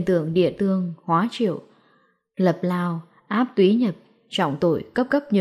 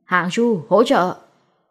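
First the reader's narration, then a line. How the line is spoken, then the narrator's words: Loud shout. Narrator (Vietnamese): Lâm Hiểu Phong hét lớn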